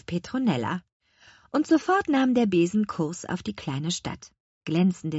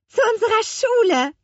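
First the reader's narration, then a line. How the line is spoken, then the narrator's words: Calling out. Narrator (German): rief Lea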